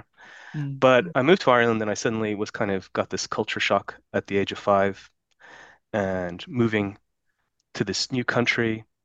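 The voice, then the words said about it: American accent. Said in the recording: “I never really lost my American accent”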